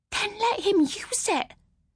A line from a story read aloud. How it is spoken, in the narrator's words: Mam was hissing now, her voice sounding urgent and high-pitched